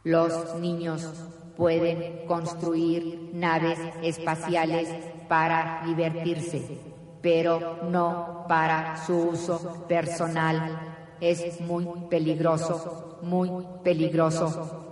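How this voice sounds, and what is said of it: Robot voice. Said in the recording (Spanish): “esa voz de robot”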